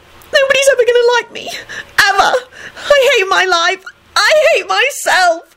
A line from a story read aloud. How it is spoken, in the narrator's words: kept sobbing